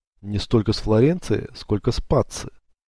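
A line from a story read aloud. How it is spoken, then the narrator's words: Plain. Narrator (Russian): ответил дядя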